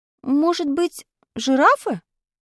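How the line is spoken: Timid suggestion. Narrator (Russian): робко предположил я

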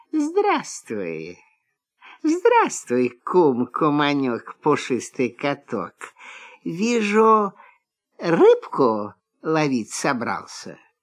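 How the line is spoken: Sweet honeyed voice. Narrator (Russian): лиса говорит медовым голоском

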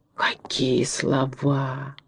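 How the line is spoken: Townspeople whispering admiringly. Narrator (Russian): восхищенно шептали горожане

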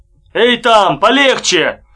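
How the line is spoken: Shout. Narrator (Russian): крикнул Беденко

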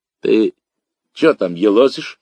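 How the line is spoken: Hoarse old woman. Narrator (Russian): хрипло спросила из темноты бабушка

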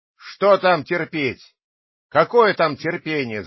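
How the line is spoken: Shouting. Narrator (Russian): закричал хозяин

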